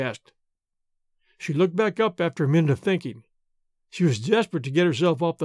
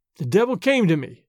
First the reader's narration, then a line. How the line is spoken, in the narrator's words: she answered